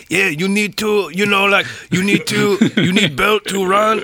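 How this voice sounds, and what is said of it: Put-on Mexican accent, broken English. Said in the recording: “speak with a Mexican accent in English ... speaking broken English in a Mexican accent”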